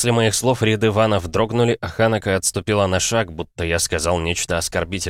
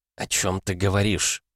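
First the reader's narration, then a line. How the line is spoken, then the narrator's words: Woman whispering. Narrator (Russian): прошептала женщина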